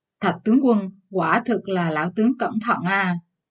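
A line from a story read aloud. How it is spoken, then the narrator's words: Sneering, angry. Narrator (Vietnamese): Thường Dịch Chi cười gằn, giận dữ nói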